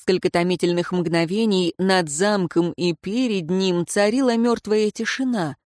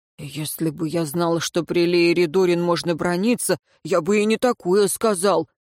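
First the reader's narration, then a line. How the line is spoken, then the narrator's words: Grumbling. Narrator (Russian): проворчал первый воин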